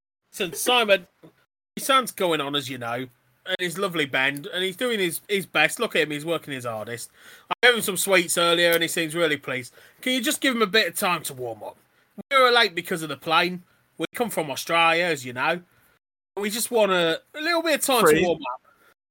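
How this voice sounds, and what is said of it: Shaky Australian accent slipping into Cockney. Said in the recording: “every now and then you do an Australian accent and then you slip back into your Cockney accent... I know. I can't do it.”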